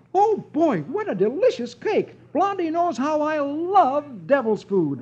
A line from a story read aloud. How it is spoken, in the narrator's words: exclaiming